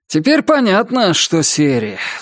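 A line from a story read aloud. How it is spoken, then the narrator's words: Sighing. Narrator (Russian): вздохнул Роман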